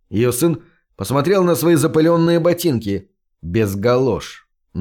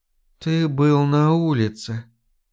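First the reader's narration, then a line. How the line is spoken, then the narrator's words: Whispered. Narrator (Russian): прошептала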